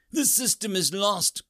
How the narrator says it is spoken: he cried out

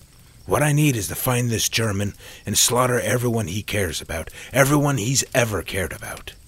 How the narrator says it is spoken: Sam snapped

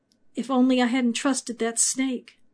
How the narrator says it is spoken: Eve winced at the accusation and whispered

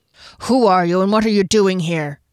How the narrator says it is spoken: growled

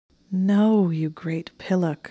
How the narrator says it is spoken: she said with an annoyed moan

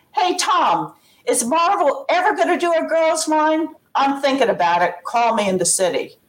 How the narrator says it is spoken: hollered out

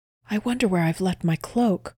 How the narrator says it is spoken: whispered Kristen

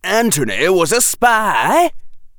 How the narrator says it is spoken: yelled Ron

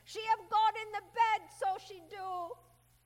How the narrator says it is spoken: when they laughed, he cried

